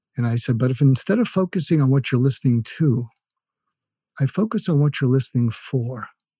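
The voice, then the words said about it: NPR radio-host style voice. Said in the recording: “put on my ... NPR voice.”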